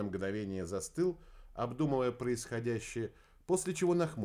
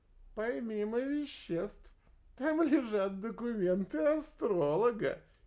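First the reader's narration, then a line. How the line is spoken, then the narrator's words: Giggling while spitting. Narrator (Russian): хихикнул Квадриго, выплевывая обглоданную косточку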